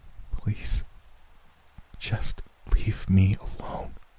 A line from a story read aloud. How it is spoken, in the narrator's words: I begged in a hushed tone